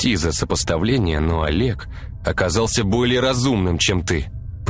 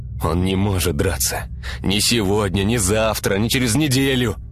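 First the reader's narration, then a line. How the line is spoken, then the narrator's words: Groaning. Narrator (Russian): простонал Артем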